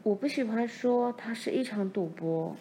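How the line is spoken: Gentle. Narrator (Chinese): 妈温柔地说

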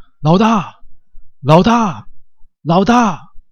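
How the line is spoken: Crowd shouting. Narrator (Chinese): 所有的秃鹰成员 纷纷朝着他喊着

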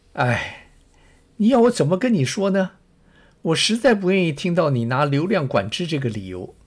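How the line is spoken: Sighing. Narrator (Chinese): Ted 叹了一口气说

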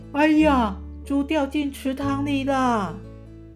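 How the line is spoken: Feigned surprised shout. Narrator (Chinese): 阿财故作惊讶的大叫

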